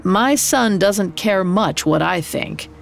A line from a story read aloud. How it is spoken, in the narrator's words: He said curtly